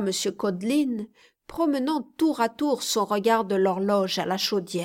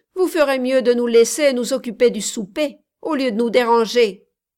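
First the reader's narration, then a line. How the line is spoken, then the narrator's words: Grumbling. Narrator (French): grommela Codelin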